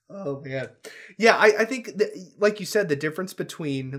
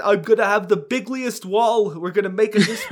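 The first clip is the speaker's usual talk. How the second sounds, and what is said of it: Trump impression, sounding like Bernie Sanders. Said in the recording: “That was almost kind of a Bernie Sanders pretending to be Trump.”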